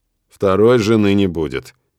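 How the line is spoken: Cold curt reply. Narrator (Russian): холодно отрезаю

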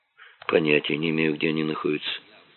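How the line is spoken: Indifferent voice. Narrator (Russian): безразличным голосом сказала Инна

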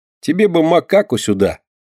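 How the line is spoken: Laughing. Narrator (Russian): засмеялся он, вспомнив свои торги рыбой

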